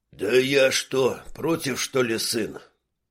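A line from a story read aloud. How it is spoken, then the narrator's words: Weary highlander's reply. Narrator (Russian): Устало ответил горец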